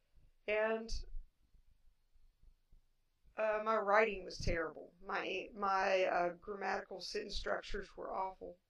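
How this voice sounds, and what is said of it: Appalachian accent. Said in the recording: “I do have an Appalachian accent.”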